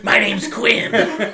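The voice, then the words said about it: Demon voice. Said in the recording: “doing the demon voice”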